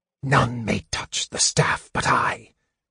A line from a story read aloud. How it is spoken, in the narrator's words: Raistlin hissed